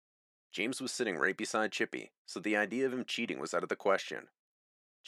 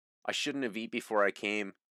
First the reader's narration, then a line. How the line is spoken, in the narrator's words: he said